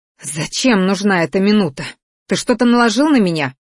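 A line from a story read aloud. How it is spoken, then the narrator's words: Hissing. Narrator (Russian): зашипела Осирия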